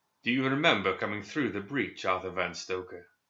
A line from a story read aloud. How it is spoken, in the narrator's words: McCabe asked with a cruel laugh